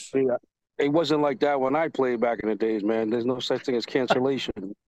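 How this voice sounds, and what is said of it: Boston accent. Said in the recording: “you got the Boston accent going on, everything, man”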